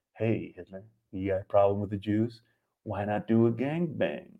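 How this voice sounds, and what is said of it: Sexy bedroom voice. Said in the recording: “my sexy bedroom voice”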